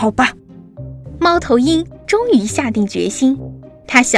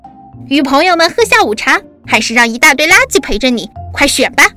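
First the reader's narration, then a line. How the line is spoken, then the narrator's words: Impatient shout. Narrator (Chinese): 松鼠不耐烦地喊着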